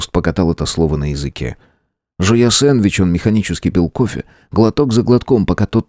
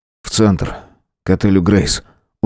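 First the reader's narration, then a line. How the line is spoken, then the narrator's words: Tired. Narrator (Russian): устало сказал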